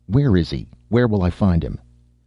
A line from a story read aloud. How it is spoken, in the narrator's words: Sherikov licked his lips nervously